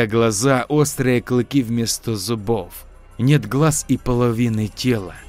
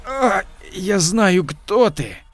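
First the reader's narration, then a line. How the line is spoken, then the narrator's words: Wheezing. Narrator (Russian): Хрипя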